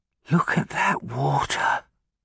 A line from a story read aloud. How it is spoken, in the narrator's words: the tall student spoke in a whisper